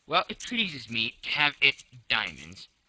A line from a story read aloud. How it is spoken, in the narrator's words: replied Colonel Proctor in an insolent tone